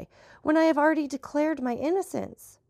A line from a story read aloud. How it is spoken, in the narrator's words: cried I